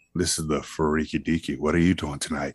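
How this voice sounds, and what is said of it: Deep, put-on sexy voice. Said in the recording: “my sexy voice ... a deep voice”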